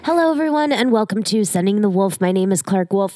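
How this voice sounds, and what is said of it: Sick-sounding voice. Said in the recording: “If you can't hear it in my voice, yes, I am still sick”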